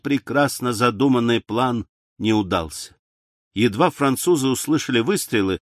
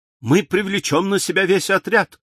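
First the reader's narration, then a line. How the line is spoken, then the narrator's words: Exclaiming. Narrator (Russian): воскликнул Дункан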